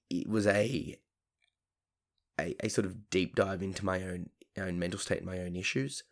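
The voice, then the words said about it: Emotional, slightly shaky voice. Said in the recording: “I'm sounding a little bit emotional”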